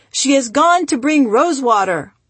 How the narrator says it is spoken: The family yelled

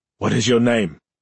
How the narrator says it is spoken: he demanded hoarsely

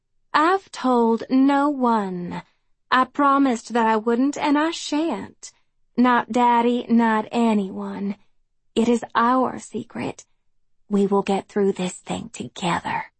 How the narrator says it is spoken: she says too sweetly

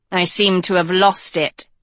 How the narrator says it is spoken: said Hort

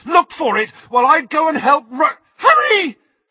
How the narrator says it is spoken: she screamed

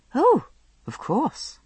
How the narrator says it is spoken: I murmured

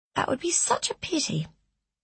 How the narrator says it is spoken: murmured Cecilia

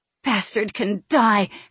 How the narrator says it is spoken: hissed

